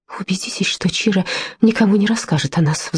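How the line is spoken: Pleading. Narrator (Russian): взмолилась Кончета

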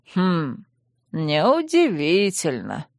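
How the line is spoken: Muttering. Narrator (Russian): пробормотал маг

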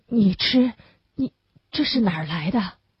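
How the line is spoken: Stammering. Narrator (Chinese): 结结巴巴地说

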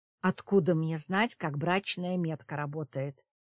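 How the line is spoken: Grumbling. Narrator (Russian): заворчала

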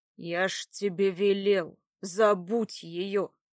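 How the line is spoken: Menacing. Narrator (Russian): грозно сказал Братмир

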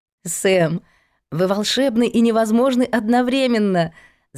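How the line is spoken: Laughing. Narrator (Russian): засмеялась

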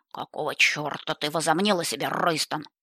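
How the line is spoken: Growling. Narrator (Russian): прорычал он

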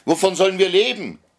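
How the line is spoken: Night watchmen shouting. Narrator (German): schrien die Nachtwächter

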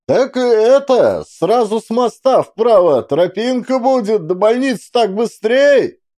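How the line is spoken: Shouting after someone. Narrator (Russian): Кричал он вслед почти бегущим мужику и бабе с детьми на руках

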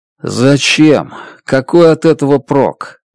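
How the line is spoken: Dejected question. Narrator (Russian): уныло спрашиваю я

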